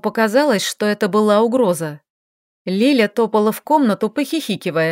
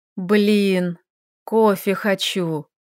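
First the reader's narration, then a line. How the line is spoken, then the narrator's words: Sad young woman. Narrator (Russian): грустно произнесла девушка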